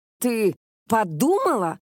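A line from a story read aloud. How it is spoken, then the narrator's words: Barked attacking. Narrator (Russian): гаркнула Кёка, бросаясь на Бунка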